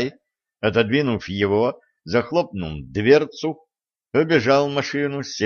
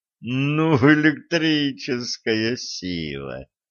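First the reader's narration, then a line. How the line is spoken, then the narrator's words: Near-moaning man. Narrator (Russian): Чуть не застонал ведун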